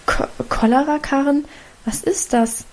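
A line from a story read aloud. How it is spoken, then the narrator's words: Stammered. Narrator (German): stammelte Mutter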